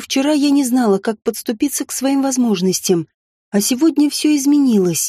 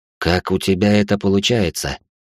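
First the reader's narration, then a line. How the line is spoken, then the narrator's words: Quiet question. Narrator (Russian): тихо спросил я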